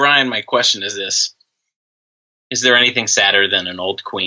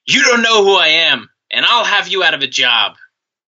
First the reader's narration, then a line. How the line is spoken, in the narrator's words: Flair shouted